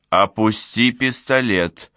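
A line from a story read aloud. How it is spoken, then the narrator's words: Plain. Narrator (Russian): сказала Буря Мелиссе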